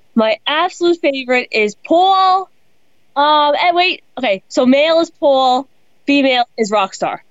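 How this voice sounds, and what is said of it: Noticeable accent. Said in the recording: “the way you say Paul is just amazing... I love your accent.”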